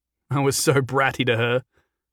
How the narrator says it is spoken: Jason said, with a sad, reminiscent laugh

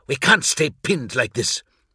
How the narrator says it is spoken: snapped Leodrak

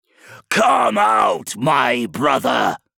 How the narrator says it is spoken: he bellowed

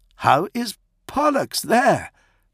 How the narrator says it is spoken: Prato exclaimed

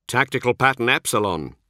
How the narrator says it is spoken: Zahariel interjected curtly, unwilling to let that train of speculation proceed any further

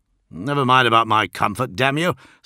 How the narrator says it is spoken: snapped Eidolon, clearly ill at ease and feeling vulnerable

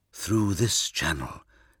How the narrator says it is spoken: said Korax, keeping his voice low as a search team rattled the deck grill far above our heads

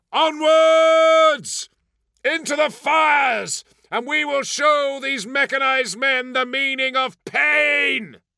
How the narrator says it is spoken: shouted

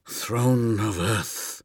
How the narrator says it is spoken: gasped

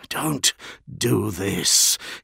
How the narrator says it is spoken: he managed to hiss

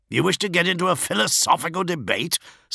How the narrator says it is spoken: snapped Ferus Manus

